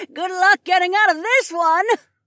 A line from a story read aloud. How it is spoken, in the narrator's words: Gertha laughed